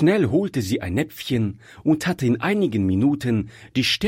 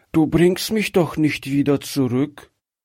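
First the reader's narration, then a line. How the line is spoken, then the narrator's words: Child's weak fearful question. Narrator (German): fragte das Kind ängstlich mit schwacher Stimme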